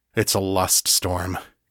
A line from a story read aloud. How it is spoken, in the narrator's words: said grimly